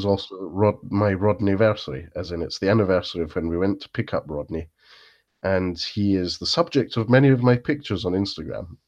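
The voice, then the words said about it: Congested voice from a cold. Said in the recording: “I have quite a cold at the moment ... whilst I splutter and cough ... I've got a bit of a cold, feeling very sorry for myself ... verging on the dreaded man flu”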